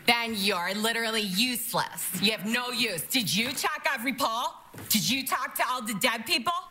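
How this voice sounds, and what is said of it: Imitates another person's voice. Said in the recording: “this is Cecily Strong impersonating the one from Michigan”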